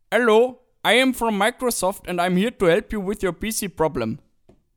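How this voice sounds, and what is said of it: English with put-on Indian accent. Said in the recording (German): “es war wirklich genauso klang diesem, also wahrscheinlich äh, meiner Meinung nach indischer Akzent”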